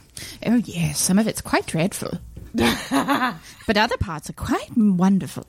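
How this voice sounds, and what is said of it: Put-on posh British royal accent. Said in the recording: “Are you being the queen? ... Yes. I've been watching The Crown. ... my husband is very annoyed with me doing this accent, but I won't stop.”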